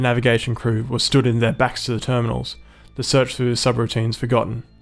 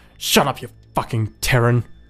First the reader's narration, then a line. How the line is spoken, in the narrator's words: Clark spat